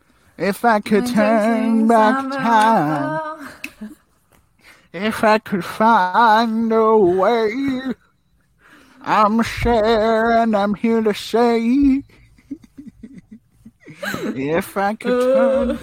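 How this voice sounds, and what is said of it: Sings imitating another person's voice. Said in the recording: “That's my Cher impression... That's really good. I really liked it.”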